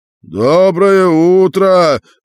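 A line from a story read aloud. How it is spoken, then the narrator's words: Shout. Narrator (Russian): крикнул большой шар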